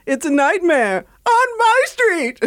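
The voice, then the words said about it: Imitates another person's voice. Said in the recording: “an impersonation of Will Smith from said song ... That's a good impression.”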